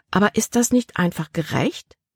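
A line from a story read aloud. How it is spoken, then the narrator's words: Plain question. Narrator (German): fragte Libby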